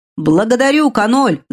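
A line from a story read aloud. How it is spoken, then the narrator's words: Shouting. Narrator (Russian): закричал он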